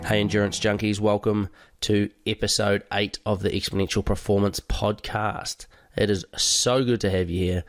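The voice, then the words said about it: Congested, hoarse voice from cold. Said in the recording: “I've got a bit of a cold ... I'm a bit blocked up, so please excuse my horsey, blocked up voice”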